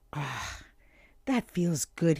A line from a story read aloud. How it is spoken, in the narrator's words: he sighed